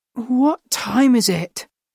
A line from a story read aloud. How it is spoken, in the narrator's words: she asked sleepily